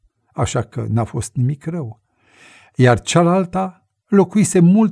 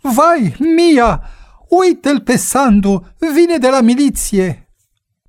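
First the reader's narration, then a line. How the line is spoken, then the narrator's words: Sudden exclamation. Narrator (Romanian): sora deodată exclamă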